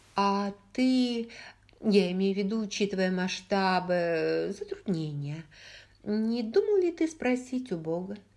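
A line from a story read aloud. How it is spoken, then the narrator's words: Hesitant question. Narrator (Russian): неуверенно спросила она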